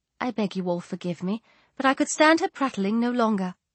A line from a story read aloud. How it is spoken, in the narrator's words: in a most delicate tone said